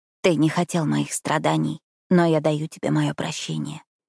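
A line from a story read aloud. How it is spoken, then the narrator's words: Hoarse. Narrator (Russian): хрипло сказала я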